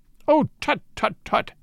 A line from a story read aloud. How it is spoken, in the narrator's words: he cried